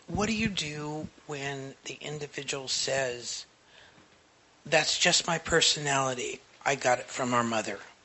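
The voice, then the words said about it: Low, quiet voice. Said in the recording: “My voice is low today.”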